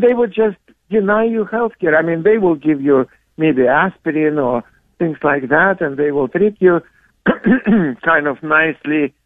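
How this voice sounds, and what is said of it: Russian accent. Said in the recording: “if you cannot tell by his accent, he is a Soviet, or a Russian, I should say, by birth.”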